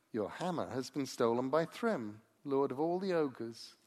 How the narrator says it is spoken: he said

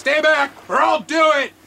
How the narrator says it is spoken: He's just yelling back

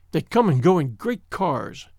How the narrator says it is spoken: she said bitterly

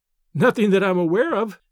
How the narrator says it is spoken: said, laughingly, although she was fibbing

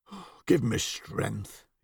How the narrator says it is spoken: he muttered

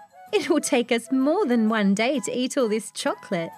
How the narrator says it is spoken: laughed Harry Bunny

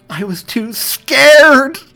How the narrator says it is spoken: she shouted the final word, which gave way to a scream of pain

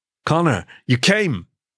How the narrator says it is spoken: exclaimed the warm, familiar voice of Sakara

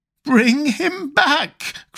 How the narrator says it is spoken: cried the old woman

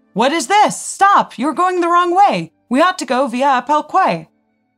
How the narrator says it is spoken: Potiorek in the third car loudly shouted

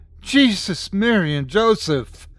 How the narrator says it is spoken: We heard the other guy that had gone up to the rise with the troop leader suddenly shout

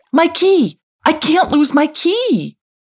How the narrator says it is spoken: called out Ailostom

